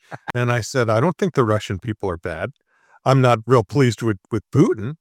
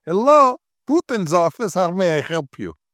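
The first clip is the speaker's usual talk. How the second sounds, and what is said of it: Put-on Polish accent. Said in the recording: “that's a Polish accent”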